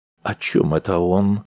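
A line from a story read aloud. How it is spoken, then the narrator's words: Confused question. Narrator (Russian): растерянно спросил Акс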